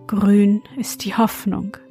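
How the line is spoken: Sighing. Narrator (German): sprach er seufzend zum Frosch

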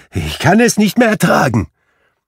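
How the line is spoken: Exclaiming. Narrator (German): rief Scrooge aus

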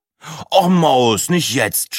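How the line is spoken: Groaning. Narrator (German): stöhnte Breitling

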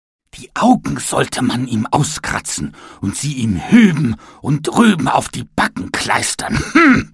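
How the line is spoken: Angry shout. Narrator (German): schrie er wütend

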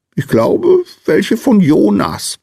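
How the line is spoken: Squeaky small man. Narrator (German): piepste der kleine Mann

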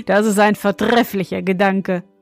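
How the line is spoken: Young man, laughing. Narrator (German): meinte der junge König und lachte

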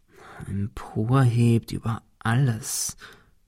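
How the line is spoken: Murmur. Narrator (German): murmelte Ben

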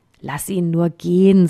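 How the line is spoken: Plain. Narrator (German): sagte ein anderer

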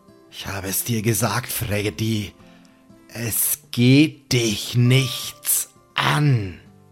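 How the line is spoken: Low sonorous murmur. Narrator (German): raunt mit seiner sonoren Stimme

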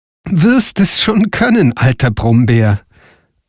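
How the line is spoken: Laughing reply. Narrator (German): antwortete Frau Holle lachend

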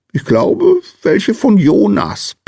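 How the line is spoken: Little man squeaks. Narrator (German): piepste der kleine Mann

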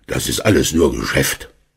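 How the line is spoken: Grumbling. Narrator (German): Herr Schmidt brummte

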